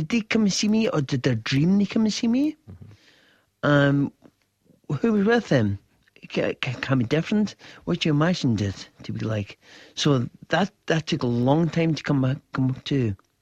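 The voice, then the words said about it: Speaks with a foreign accent. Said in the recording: “You didn't always speak with this foreign accent you're talking to us.”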